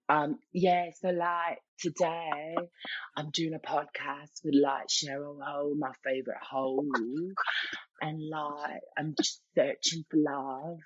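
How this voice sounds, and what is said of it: Put-on Essex English accent. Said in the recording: “Is this an accent from Essex? ... Do you want to show everybody your Essex accent?”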